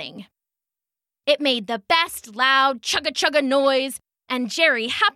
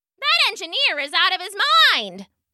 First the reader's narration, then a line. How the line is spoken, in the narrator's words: shouted a passenger who nearly missed getting knocked over